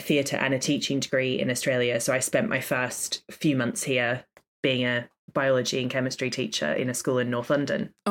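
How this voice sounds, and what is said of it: Australian accent. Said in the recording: “there's a little accent there. So you're ... Australian. ... An accent. There is an accent.”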